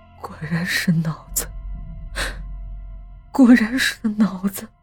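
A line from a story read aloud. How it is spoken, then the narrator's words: Shocked muttering. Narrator (Chinese): 老陈也脸色一变，喃喃道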